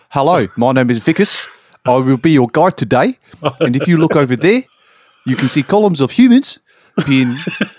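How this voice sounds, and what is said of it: Put-on South African accent. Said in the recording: “I could also do South African.”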